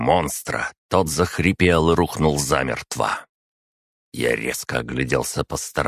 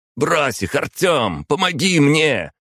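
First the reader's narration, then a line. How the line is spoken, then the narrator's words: Barked. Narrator (Russian): Рявкнул другой тип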